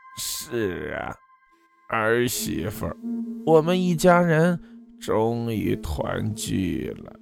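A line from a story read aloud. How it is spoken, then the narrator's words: Hoarse slow female voice within. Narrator (Chinese): 一个沙哑缓慢的女人音调从自己体内传来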